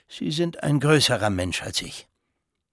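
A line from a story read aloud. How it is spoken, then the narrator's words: Flat toneless voice. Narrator (German): antwortete der Makler tonlos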